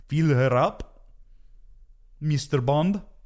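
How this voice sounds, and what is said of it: Weak put-on Russian accent. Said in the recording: “I got to work on my Russian accent.”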